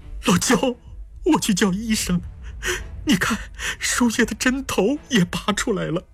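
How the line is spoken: Crying. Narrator (Chinese): 徐俊雅哭了

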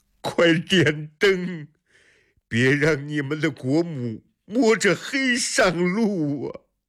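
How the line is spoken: Loud tearful shout. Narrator (Chinese): 李世民带着哭腔大声喊着

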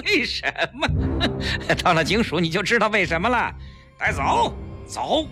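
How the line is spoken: Sinister laugh. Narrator (Chinese): 带头的警察阴险地笑了

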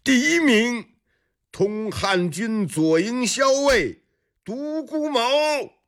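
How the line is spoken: Loud official announcement. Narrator (Chinese): 司仪官已经大声喊了起来

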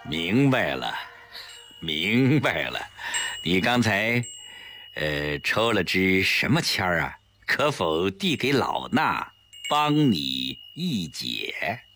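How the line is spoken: Smiling. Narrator (Chinese): 宽灵法师一笑

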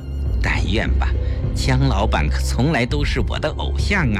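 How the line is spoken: Soft gentle voice. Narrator (Chinese): 顾青柔声说道

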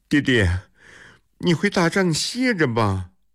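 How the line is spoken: Tearful voice. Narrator (Chinese): 郑立晚带着哭腔说

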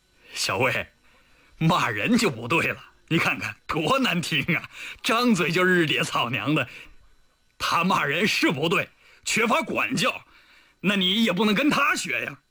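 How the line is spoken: Sly grinning. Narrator (Chinese): 李云龙一脸坏笑地说

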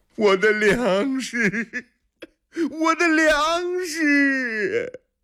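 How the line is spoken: Wailing. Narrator (Chinese): 李元昌几乎是在哭嚎

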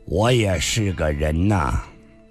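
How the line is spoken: Flat, indifferent. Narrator (Chinese): 上官金虹淡淡地说道

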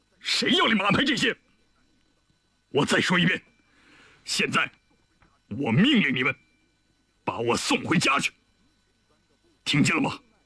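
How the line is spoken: Stern, sharp. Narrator (Chinese): 李云龙 厉声道

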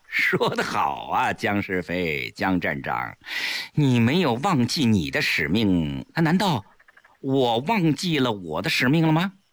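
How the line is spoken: Chuckling. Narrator (Chinese): 齐长鹏一笑

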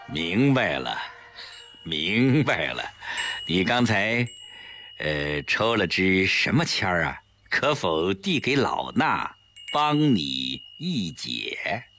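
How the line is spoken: With a smile. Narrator (Chinese): 宽灵法师一笑

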